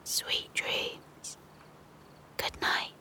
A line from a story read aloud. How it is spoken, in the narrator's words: whispered gently